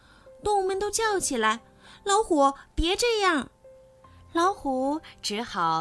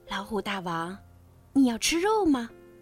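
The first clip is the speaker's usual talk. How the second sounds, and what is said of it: Quiet, hushed question. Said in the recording (Chinese): “狐狸小声问”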